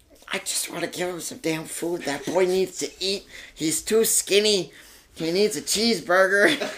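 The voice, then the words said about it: Poor imitation of his mother's voice. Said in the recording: “That's a terrible impersonation of you. That's absolutely atrocious.”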